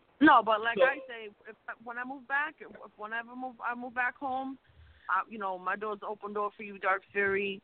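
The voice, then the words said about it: New York accent. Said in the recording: “your New York accent, comes out more and more every week.”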